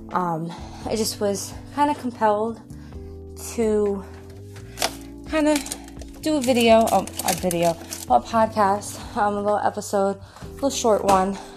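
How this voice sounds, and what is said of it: Out of breath speaking. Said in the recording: “Excuse any of the background noise or my out of breathness.”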